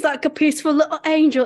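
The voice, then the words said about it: Put-on theatrical accent. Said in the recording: “What was that accent? ... It was like Moira Rose a little bit.”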